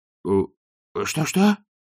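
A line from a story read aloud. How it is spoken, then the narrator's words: Frightened questioning. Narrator (Russian): испуганно переспросил казначей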